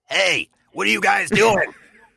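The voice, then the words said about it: Nick Nolte impression. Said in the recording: “I could do a Nick Nolte impression for you ... It's pretty good off the bat.”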